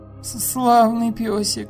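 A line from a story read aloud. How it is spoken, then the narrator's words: Trembling voice. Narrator (Russian): произнес тот дрожавшим голосом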